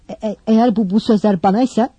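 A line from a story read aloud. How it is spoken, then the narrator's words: Stammering. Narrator (Turkish): Kekeleyerek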